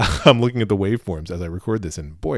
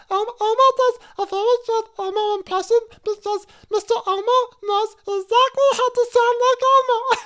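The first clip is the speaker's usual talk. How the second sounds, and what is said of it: Loud Elmo impression. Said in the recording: “a person who does a compelling Elmo impression ... It's a little bit loud ... that's my Elmo impression ... boy, it's really loud”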